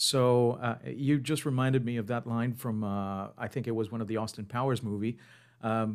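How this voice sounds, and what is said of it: Usual voice. Nothing is said of it.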